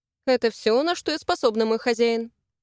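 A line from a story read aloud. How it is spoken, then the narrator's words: Angry grumble. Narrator (Russian): Буркнула, все еще не в состоянии избавиться от злости на парня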